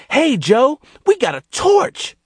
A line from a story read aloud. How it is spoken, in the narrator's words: With sudden inspiration, Gerald shouted